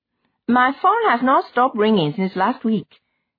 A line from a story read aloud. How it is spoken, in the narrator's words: Priye said triumphantly